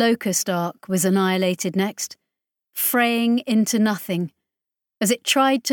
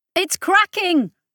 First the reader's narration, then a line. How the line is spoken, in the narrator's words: was shouting